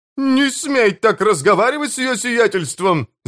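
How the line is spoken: Yelling. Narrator (Russian): завопил Смью

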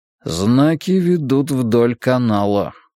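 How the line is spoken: Thoughtful grumble. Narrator (Russian): проворчал Драккайнен, задумчиво

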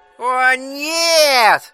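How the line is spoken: Wailing trembling falsetto. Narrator (Russian): завопил Джон вибрирующим фальцетом

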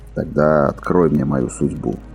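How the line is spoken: Hoarse voice. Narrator (Russian): хрипло проговорил стрелок

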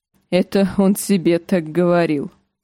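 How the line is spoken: Laughing. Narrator (Russian): засмеялся Клиган

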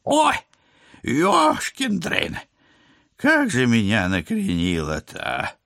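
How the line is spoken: Warm exhale. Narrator (Russian): Тепло выдохнула она

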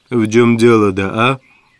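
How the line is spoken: Weary tone. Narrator (Russian): проговорил он утомленным тоном

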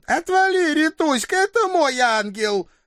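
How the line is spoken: Offended yelp. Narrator (Russian): обиженно вякнула рыжая герцогиня

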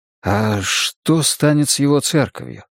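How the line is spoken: Quiet question. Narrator (Russian): тихонько спросил я у Энеи

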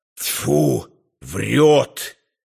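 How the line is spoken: Hissed into ear. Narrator (Russian): прошипел на ухо

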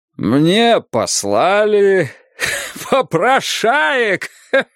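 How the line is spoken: Louder. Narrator (Russian): Сказал он громче

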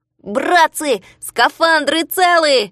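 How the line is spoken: Shouted with relief. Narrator (Russian): закричал он, убедившись, что скафандры были невредимы

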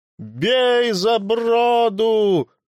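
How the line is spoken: Shouted. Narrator (Russian): крикнул Ивремах

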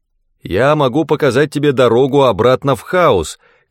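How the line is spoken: Shouted. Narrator (Russian): крикнул я

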